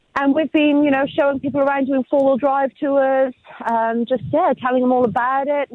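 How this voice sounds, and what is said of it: British accent. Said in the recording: “you may tell by my accent that I'm actually not around from this neck of the woods originally. I'm actually from the UK myself”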